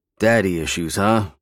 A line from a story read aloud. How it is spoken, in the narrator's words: Sam chuckled darkly